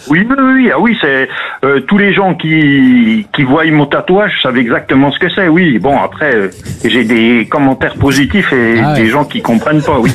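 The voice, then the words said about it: Slight Franche-Comté (Doubs) French accent. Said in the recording (French): “l'accent magnifique ... l'accent du Jura ... L'accent doubiste ... On a un accent qui se reconnaît facilement ... Oh, légèrement ... Franchement, discret.”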